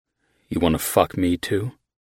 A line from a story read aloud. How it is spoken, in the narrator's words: I said in a low voice, a soft smile tilting the corner of my mouth